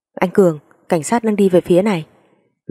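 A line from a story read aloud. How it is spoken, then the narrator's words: Shouted warning. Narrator (Vietnamese): có một người hét lên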